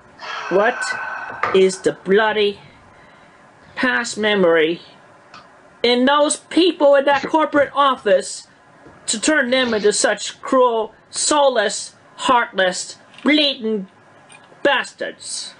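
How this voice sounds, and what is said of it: Put-on British accent. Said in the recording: “Why is he talking with a British accent? ... where'd that accent come from?”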